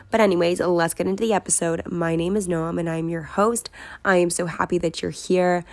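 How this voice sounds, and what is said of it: Weakened, partly lost voice. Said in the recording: “Does my voice sound weird? It probably does ... I did lose my voice a little bit ... I will sound much chirpier”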